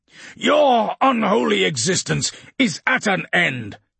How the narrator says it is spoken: Custer shouted

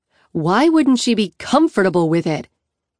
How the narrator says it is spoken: She snaps

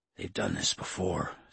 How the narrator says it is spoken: Sanders muttered, sounding more like himself

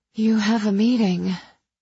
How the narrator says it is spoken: I panted

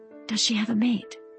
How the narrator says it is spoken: Rosie whispered

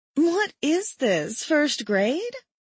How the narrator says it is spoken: I laughed

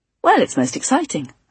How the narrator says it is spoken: said brightly

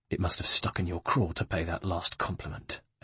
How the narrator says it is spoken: hissed

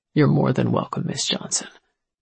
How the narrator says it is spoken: he said, his voice cold

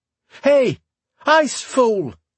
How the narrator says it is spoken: Garin shouted

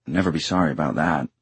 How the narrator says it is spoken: Simon muttered

